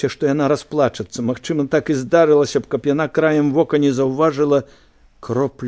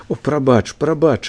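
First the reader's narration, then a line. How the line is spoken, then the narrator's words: Sighing, sobbing. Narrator (Belarusian): Алесь уздыхнула, і яна як усхліпнула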